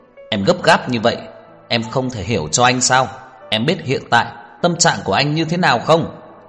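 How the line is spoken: Angry, agitated. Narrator (Vietnamese): Tưởng Thiên Lỗi tức giận nhìn cô, lại kích động giống lên

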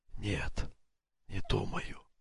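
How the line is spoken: Whispered reply. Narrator (Russian): шепотом ответил Дин

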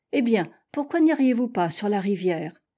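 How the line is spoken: Plain. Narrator (French): dit-elle

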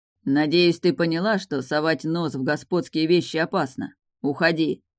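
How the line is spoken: Stern. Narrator (Russian): строго сказал Доминго

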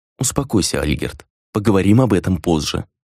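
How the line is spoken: Quiet, calm. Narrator (Russian): тихо произнесла Хранья

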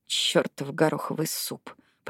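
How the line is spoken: Grumbling. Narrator (Russian): проворчала она

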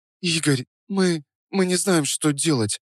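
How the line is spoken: Trembling voice. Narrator (Russian): начала Настя дрожащим голосом

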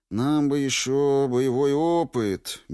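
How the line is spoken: Dreamy drawl. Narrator (Russian): мечтательно протянул я

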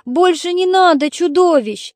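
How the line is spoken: Crying, shouting boy. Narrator (Russian): мальчик внезапно заплакал и закричал

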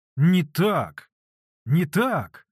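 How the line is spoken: Full-force bark. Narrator (Russian): во всю мощь гаркнул Самоквасов

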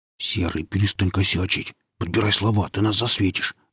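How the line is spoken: Hissing. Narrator (Russian): зашипел я на Сергея

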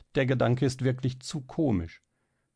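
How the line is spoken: Laughing. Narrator (German): lachte Helene

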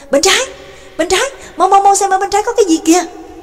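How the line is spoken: Calling out from behind. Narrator (Vietnamese): Trương Lập ở phía sau cũng kêu lên

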